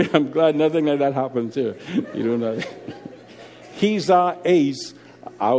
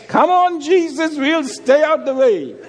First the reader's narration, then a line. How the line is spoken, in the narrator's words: The little girl closest to the aisle shouted